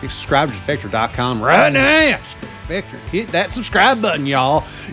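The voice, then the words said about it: Bad put-on country accent. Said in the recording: “the best accent work of all time ... yeehaw. A horrific accent.”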